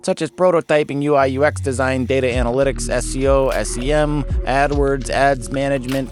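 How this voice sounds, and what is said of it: Exaggerated Great Lakes accent. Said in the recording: “I'm using this outrageous Great Lakes accent”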